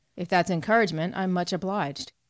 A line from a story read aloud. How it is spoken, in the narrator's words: he answered dryly